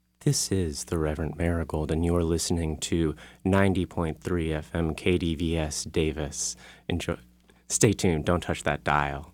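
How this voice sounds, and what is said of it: Sultry radio announcer voice. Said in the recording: “let me do my best sultry radio voice”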